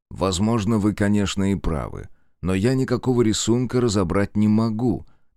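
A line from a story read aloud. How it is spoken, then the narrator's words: Plain. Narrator (Russian): наконец сказал он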